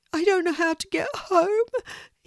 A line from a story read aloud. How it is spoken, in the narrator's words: he sobs